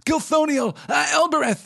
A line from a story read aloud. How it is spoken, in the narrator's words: Sam cried